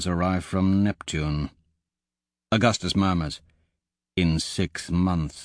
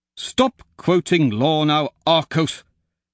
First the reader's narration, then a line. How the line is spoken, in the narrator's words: Pliny snaps